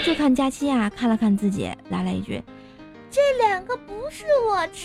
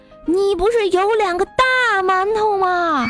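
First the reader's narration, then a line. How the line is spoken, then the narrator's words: Loud reply. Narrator (Chinese): 小黑也大声回答道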